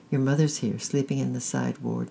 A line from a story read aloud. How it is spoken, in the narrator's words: said the nurse kindly